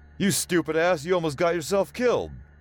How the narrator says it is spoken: O'Sullivan screamed

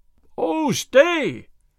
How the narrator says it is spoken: shouted Will Stuteley after the sheriff

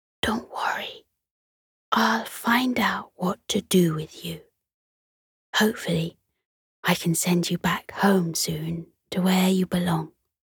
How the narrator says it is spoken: She whispered to the stars

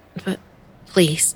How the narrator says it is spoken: I stammered, not wanting that anywhere near my mouth, but fear of antagonizing Merrill overriding my gag reflex

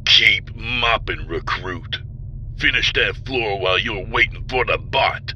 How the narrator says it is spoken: Vardle growled

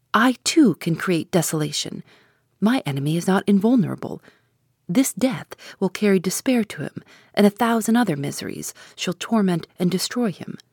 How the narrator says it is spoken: I exclaimed

